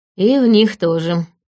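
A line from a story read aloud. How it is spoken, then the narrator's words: Snake's wry snort. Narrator (Russian): хмыкнул змей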